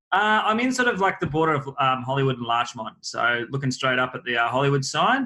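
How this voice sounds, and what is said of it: Strong accent. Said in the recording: “I don't know who's got a stronger accent. Is it you or I?”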